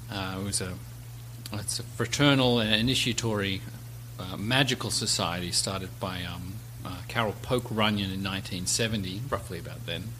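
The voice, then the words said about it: Strange, Australian-tinged accent. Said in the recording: “I was raised in Australia, hence the strange and obnoxious accent”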